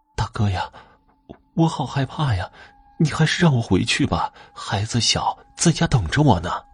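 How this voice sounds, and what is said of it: Tearful, crying-tinged voice. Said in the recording (Chinese): “她的声音带着哭腔”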